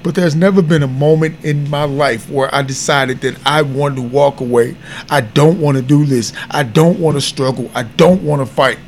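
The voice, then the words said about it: Emotional, strained voice. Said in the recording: “I'm sorry if I'm getting emotional.”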